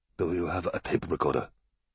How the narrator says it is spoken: Takagishi whispered to Francesca

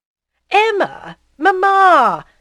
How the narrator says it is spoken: cried Charles, trying to reconcile them

